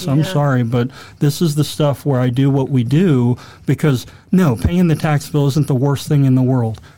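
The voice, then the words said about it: Fired-up, impassioned voice. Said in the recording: “that's the stuff that fires, you can hear it in my voice,”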